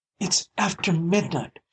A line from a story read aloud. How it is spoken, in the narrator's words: she gasped